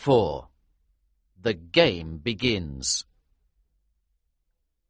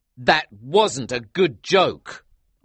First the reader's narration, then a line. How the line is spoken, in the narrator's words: I said angrily